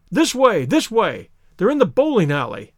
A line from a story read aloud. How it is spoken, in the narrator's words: cried the stranger, darting through the bushes